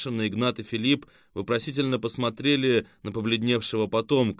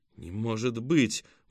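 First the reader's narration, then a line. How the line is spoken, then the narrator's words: Breathless exhale. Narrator (Russian): выдохнул Артем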